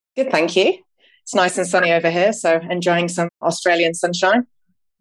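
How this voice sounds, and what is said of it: Northern English accent, slightly blended. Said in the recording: “It's hard to get rid of the Northern accent ... you still sound like one of us ... It's definitely a bit of a blend after so long.”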